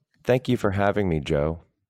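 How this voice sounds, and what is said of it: Robotic, plaintive, sad delivery. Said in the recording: “That was a little robotic ... It was like a little plaintiff, almost like a little like sat, like a little urchiny ... sadness”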